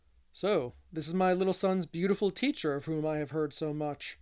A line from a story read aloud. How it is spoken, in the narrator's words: said Mr